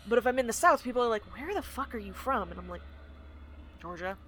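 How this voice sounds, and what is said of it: Soft Southern American accent. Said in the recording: “my default is kind of a much softer Southern accent, where, like, if I am anywhere but the South, you can fucking hear it.”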